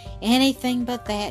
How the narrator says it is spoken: she sighed

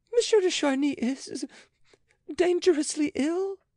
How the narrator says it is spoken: cried Andrea

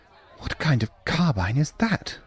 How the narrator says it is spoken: Chambers whispered

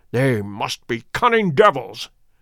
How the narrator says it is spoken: he exclaimed at last

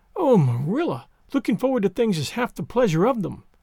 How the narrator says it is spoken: exclaimed Anne

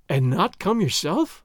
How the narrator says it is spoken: Doña Catalina gasped

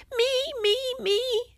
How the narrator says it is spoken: she shouted even louder

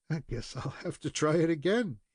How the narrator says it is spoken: he added, with a mingled laugh and shudder

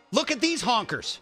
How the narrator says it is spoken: Yelling

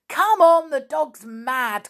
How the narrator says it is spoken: cried Dan

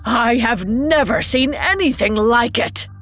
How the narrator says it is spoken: cried

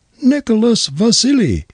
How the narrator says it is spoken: As she fell, shrieked out, so that the police heard her

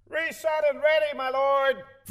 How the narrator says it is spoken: The sound effects man in the corner shouted

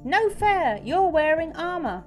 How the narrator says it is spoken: Jerry shrieked

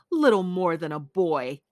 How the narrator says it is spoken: she sneered

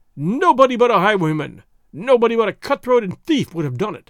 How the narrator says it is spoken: he cried aloud

